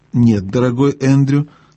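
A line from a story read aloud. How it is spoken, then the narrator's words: Calm firm older woman. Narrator (Russian): спокойно и твердо ответила тетя Летти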